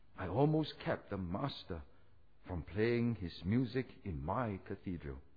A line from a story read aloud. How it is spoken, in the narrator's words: said softly